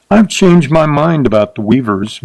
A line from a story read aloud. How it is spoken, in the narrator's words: Mertzen snarled